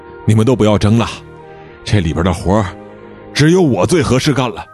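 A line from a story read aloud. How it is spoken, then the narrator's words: Panting, breathless answer. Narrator (Chinese): 潘佳琪大口大口地喘着粗气，回答说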